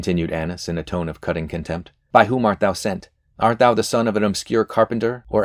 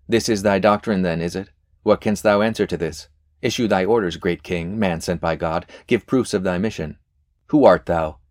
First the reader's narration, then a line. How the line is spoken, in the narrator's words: added mockery to insult, exclaiming at every pause in the accusations